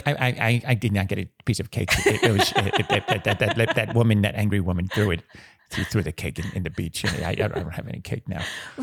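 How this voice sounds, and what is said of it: Impression of an upset coworker. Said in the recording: “It was such a good impression.”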